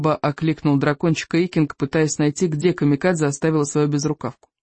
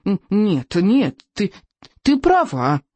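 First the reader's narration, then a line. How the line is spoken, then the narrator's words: Excited squeal. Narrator (Russian): взвизгнул Беззубик, сам не свой от возбуждения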